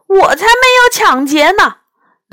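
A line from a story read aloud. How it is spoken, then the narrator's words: Indignant, self-righteous. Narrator (Chinese): 那只黄鼠狼理直气壮地说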